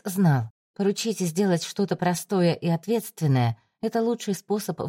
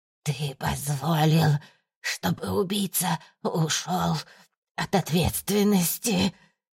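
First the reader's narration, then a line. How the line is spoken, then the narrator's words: Hoarse wheezing. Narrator (Russian): сипела Валентина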